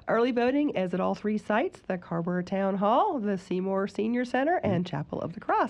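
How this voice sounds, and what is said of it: Stuffy, congested voice. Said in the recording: “I have a bit of a cold, so please excuse the stuffiness. ... Oh, it's there.”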